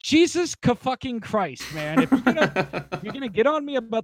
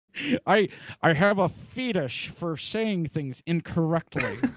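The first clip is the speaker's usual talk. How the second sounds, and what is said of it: Imitates another person's voice, poorly. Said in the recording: “worst Sean Connery impression I've ever heard”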